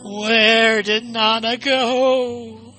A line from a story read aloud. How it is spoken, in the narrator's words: She wailed